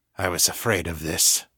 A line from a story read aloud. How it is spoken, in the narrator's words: he muttered